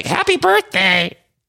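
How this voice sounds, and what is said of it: Imitates another person's voice, badly. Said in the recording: “my Teresa is a terrible impression.”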